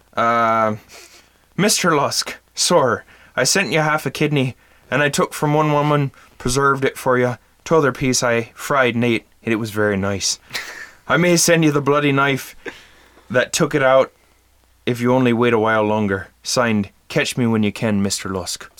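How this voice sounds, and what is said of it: Put-on Irish accent. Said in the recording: “read this in an Irish accent”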